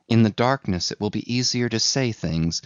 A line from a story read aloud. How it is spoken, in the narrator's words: she whispered to herself